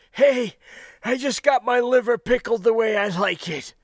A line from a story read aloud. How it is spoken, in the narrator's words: he replied between gasps, still grinning